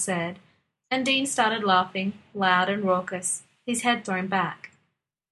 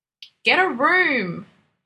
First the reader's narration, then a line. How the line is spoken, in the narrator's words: bellowed